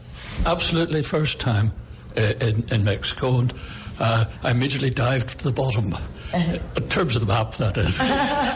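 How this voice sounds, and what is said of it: Irish accent. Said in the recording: “your Irish accent”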